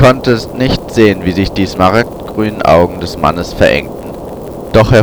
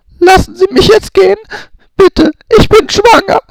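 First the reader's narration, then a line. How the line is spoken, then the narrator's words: Sobbing. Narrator (German): schluchzte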